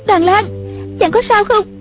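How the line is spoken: Crying out. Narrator (Vietnamese): Một Uyển Thanh kêu lên

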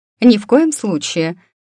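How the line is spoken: Stern. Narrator (Russian): строго сказала миссис Найджел

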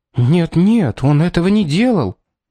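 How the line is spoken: Agitated exclamation. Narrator (Russian): воскликнула, сжав кулаки ее спутница

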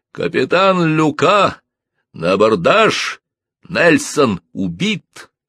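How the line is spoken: Booming thunderous voice. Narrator (Russian): зычный голос, слышный всей команде, прогремел с Марса

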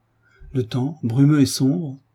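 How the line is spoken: Delighted exclamation. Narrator (French): s'écria, avec ravissement

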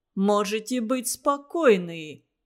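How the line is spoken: Deep bass voice. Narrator (Russian): пробасил Кузьмин

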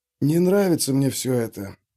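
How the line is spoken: Whispered. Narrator (Russian): прошептал Френчи

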